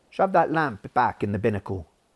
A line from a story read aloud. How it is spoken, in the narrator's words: said Will